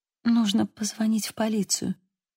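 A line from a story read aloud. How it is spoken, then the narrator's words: Weak voice. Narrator (Russian): слабым голосом произнесла она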